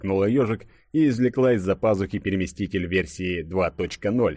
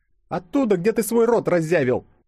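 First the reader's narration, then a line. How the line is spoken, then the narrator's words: Snapping. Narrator (Russian): огрызнулась она по своему обыкновению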